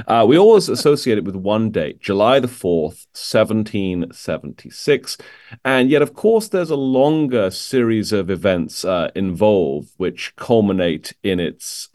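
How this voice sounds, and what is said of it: British accent. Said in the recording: “my British accent ... this funny accent”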